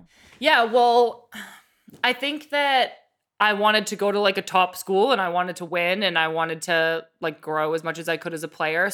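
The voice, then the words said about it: Boston accent. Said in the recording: “you're from Boston ... still have an accent”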